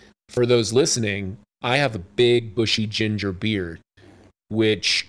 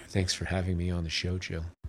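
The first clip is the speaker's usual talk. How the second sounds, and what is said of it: Deep velvety late-night radio voice. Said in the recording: “It's my late night radio voice ... it's so velvety”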